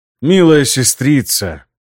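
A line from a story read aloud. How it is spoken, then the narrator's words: Hissing, insinuating. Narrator (Russian): С шипящими нотками в голосе вкрадчиво произнес Эмиль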